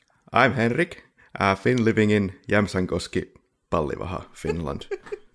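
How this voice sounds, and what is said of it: Imitated Finnish-accented English. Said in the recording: “that also an impression of his accent ... I tried. ... A little bit.”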